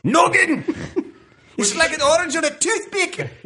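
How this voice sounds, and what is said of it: Mike Myers-style Scottish accent. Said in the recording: “His Scottish accent in So I Married an Axe Murderer would be similar to what ... is attempting to do right now ... Mike Myers impersonating his father”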